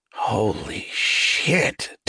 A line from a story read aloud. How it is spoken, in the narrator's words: Talbert whispered